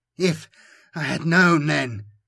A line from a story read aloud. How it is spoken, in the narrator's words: Camanio gasps, working hard